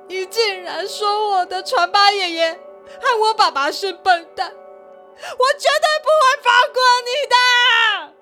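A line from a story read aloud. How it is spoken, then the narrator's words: Loud crying shout. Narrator (Chinese): 四十郎大声的哭喊响遍了夜空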